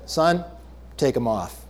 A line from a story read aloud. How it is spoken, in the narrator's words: The dentist calmly said